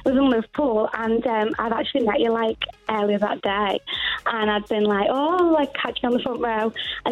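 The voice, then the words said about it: Liverpool-area English accent. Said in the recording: “I love your accent. It's gorgeous.”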